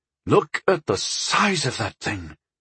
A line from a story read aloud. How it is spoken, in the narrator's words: breathed Talaman